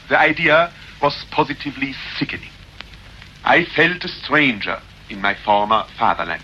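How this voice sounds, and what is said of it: English with strong German accent. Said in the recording (French): “son anglais étranger, un fort accent allemand”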